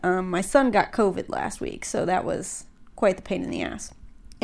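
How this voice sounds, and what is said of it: Congested, stuffy-nosed voice. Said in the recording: “I sound a little congested. I'm a little congested.”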